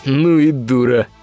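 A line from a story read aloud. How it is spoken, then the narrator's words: Snorting big man. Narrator (Russian): фыркнул бугай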